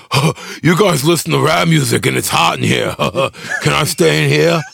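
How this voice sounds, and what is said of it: Impression of another person's voice. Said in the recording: “That impression. ... It was already good.”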